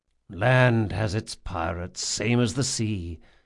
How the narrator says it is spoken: he murmured between kisses

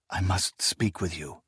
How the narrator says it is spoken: he said in a hushed voice

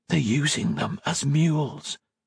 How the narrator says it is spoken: Octavia whispered

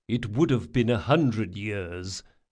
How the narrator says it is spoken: muttered Chains

